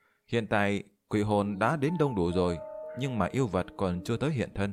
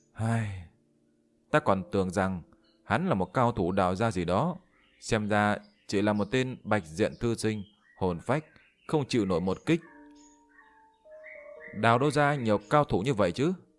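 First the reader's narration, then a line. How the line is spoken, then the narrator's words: Sighing. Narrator (Vietnamese): Yên Chi thở dài một hơi nói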